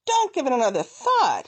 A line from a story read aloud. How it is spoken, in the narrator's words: his father shouted